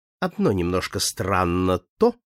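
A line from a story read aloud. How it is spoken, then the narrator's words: Calm. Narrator (Russian): спокойно проговорил клерк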